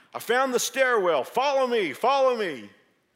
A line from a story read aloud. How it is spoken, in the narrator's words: a young man with an authoritative voice yell out